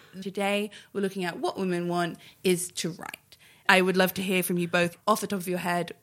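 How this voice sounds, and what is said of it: Serious radio presenter voice. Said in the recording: “I'm going to do my radio voice because I'm a serious woman.”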